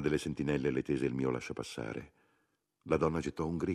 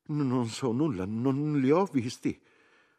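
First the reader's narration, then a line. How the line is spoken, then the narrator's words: Frightened stammer. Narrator (Italian): una piccola e grassa donna che, spaventata, balbettò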